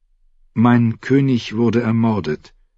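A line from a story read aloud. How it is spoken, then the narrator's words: Girl answering softly. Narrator (German): antwortete das Mädchen leise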